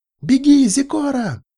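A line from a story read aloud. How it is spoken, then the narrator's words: Shout. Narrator (Russian): крикнула Мара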